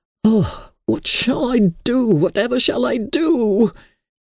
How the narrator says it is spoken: moaning

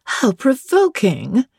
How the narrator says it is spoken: exclaimed Miss Ingram

